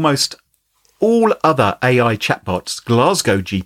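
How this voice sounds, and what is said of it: Usual voice. Nothing is said of it.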